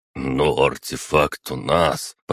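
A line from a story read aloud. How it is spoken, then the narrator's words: Muttered aside. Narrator (Russian): пробурчал в сторону Киреев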